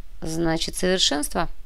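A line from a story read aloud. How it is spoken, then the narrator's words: Thoughtful repetition. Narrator (Russian): задумчиво повторил Кортес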